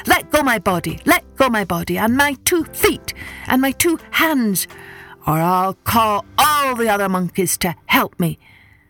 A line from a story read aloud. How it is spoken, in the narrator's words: the monkey shouted